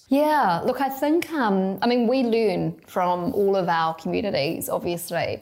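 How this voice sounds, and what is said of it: New Zealand accent. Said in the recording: “you're clearly from New Zealand given the accent”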